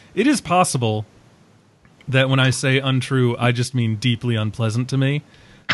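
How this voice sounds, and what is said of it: Strained, hoarse voice. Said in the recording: “I'm losing my voice apparently”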